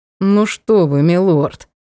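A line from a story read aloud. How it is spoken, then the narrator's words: Forced out through gritted teeth. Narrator (Russian): сквозь зубы выдавил король эльфов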